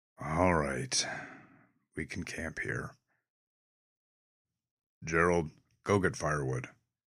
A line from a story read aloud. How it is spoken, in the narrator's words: With a disgruntled sigh, he conceded